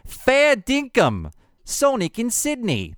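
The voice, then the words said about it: Bad put-on Australian accent. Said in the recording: “That's my bad Australian accent, by the way.”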